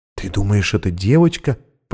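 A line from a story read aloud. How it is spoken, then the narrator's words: Whisper. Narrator (Russian): прошептала Анна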